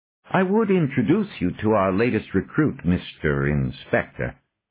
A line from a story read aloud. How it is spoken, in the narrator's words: Bezois said